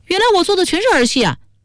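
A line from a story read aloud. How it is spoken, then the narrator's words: Furious. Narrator (Chinese): 于宝宝大怒说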